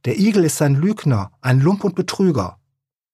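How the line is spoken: Furious loud shout. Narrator (German): So wütend, dass er laut schrie

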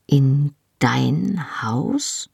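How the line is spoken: Slowly. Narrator (German): sagte ich langsam

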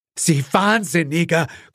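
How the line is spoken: Gasping. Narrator (German): keuchte Gerald

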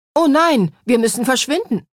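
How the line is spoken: Calling out. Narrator (German): rief Olaf

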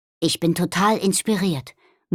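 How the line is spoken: Murmured. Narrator (German): murmelte Nobby

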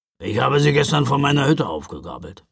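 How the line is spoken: Grumbling. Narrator (German): brummte Knecht Ruprecht

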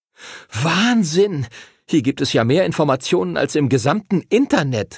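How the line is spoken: Excited calling out. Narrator (German): rief Arthur aufgeregt

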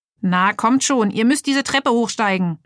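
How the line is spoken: Calling out. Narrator (German): rief

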